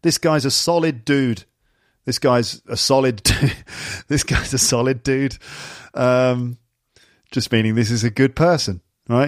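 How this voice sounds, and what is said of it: English accent. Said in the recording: “it sounds funny when I say it in my English accent”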